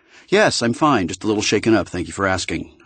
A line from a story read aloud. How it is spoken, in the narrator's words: I said